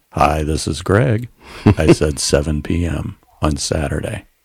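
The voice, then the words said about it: Flat, boring monotone. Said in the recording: “So you use this boring tone.”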